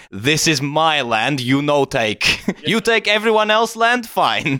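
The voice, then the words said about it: Put-on Georgian accent. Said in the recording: “Georgian accent, comrade.”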